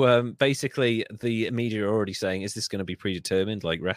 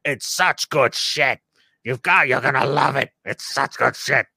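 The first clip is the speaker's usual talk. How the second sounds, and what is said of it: Imitates another person's voice. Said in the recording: “my Vince McMahon impression ... It's on point.”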